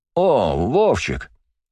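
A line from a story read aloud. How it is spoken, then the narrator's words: Joyful exclamation. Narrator (Russian): радостно воскликнул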